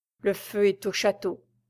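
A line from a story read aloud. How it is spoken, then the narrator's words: Murmured. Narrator (French): murmura Raoul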